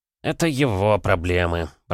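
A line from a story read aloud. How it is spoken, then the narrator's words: Grumble. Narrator (Russian): пробурчал Курчинский, заведующий лабораторией в Королеве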